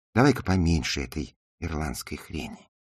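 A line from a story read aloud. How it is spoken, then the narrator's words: Whisper. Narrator (Russian): прошептала она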